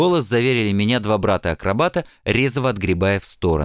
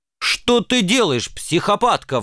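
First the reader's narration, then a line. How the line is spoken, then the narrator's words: Loud yell. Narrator (Russian): в голос завопил я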